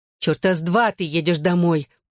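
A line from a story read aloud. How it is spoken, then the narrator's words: Growled. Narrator (Russian): прорычала Лиззи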